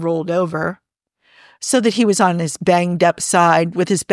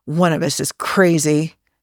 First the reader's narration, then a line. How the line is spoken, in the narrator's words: he muttered